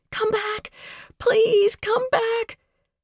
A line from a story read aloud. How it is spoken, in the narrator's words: I screamed